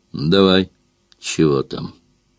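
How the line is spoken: Grim command. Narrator (Russian): Сайра мрачно приказала

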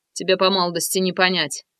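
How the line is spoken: Grumble. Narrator (Russian): проворчал Грязнов

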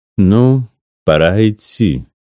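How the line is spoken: Old woman, sepulchral voice. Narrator (Russian): произнесла баба Циля с могильным голосом

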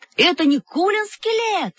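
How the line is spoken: Yelling. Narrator (Russian): заорал Павлик

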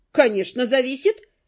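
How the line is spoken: Snorting. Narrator (Russian): фыркнула наемница

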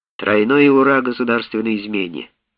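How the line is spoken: Calm. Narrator (Russian): спокойно сказал он

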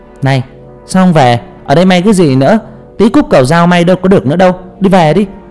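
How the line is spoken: Grumpy snapping. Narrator (Vietnamese): bà ấy gắt gỏng

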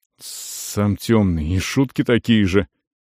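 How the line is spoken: Displeased muttering. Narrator (Russian): недовольно пробормотал Бракос

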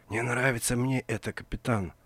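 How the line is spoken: Whispered mutter. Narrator (Russian): шепотом пробормотал Вицикус

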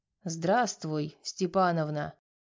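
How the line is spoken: Hoarse low voice. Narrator (Russian): сказал он хриплым низким голосом

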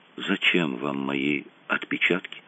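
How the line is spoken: Barely audible question. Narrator (Russian): Еле слышно спросил

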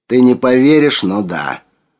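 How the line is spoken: Grumbling. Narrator (Russian): проворчал он

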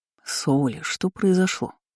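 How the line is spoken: Quiet question. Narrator (Russian): брюнет спросил тихо

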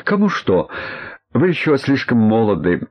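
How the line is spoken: Laughing loudly. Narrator (Russian): Грибовский опять расхохотался

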